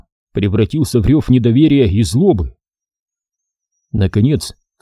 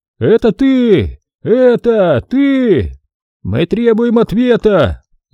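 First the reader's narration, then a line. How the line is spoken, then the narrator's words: Yell. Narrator (Russian): Завопил кто-то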